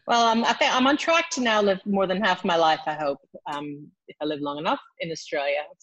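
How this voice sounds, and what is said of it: American accent with slight twang. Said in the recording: “more Australian than American, despite my accent, which twangs a little bit”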